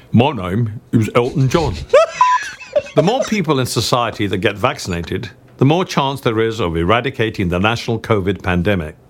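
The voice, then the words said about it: Michael Caine impression. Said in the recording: “Let's go for your Michael Caine impression.”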